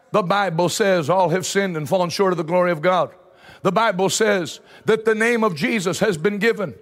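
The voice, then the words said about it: Rural North Carolina accent. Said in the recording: “you just hear them in that North Carolina dairy farmer accent.”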